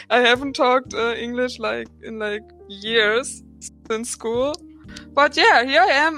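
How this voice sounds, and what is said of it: Heavy German accent. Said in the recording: “my very heavy German accent”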